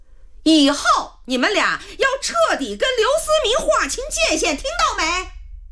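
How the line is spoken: Growing louder. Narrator (Chinese): 何露妈妈的声音越来越大

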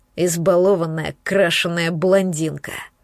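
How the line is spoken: Growled. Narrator (Russian): прорычал

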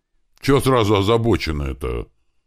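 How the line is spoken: Offended question. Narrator (Russian): обиженно спросил Слива

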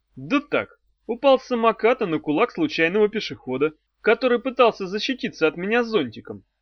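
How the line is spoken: Cheerful reply. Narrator (Russian): бодро отвечал Мефодий

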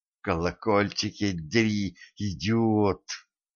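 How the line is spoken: Hissing. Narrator (Russian): прошипела Кэтран

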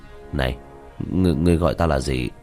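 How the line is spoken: Twitching, incredulous. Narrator (Vietnamese): Diệp Thiếu Dương khóe miệng run rẩy

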